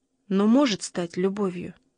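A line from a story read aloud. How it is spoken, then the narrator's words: Quiet, moved reply. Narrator (Russian): тихо ответил Шагерстрём, и по голосу его чувствовалось, что он растроган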